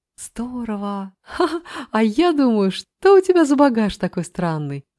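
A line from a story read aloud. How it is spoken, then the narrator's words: Laughing. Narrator (Russian): засмеялась Мила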